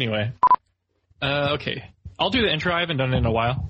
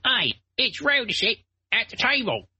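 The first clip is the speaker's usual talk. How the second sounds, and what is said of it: Cockney accent character voice. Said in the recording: “He's got like this like cockney accent.”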